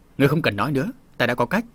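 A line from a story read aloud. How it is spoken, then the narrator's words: Restrained, decisive. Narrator (Vietnamese): Tam đà chủ định quát, nhưng lại ngẫm thấy Vương Ngũ cũng có phần nào có lý, liền nói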